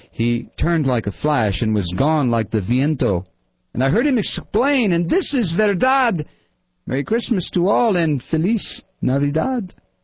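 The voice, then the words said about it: Put-on accent. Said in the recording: “that accent”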